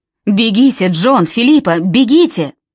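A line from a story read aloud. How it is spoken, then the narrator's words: Shouting. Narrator (Russian): Нимрод закричал им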